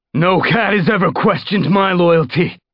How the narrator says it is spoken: he snarled

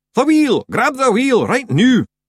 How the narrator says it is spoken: Mostly they shouted

